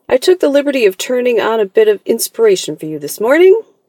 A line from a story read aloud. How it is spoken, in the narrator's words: said Rose cheerfully